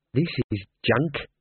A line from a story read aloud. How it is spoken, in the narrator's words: said Imp, under his breath